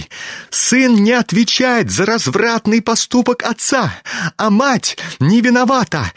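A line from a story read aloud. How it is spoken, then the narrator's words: Heated shriek. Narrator (Russian): жаром провизжал Ипполит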